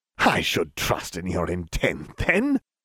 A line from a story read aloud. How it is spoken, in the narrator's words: Voldemort laughed